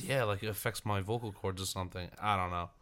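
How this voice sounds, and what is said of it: Deeper voice from illness. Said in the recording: “It's the deep voice... The radio voice... Especially when I'm sick, my voice gets a little deeper”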